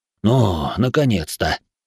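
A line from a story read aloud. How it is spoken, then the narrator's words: Impatient groan. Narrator (Russian): простонал от нетерпения Куват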